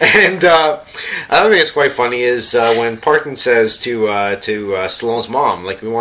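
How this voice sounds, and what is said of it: Usual voice. Nothing is said of it.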